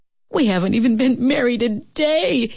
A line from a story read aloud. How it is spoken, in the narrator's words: he sobbed